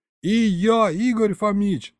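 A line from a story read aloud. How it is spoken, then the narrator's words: Yelled. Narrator (Russian): завопил я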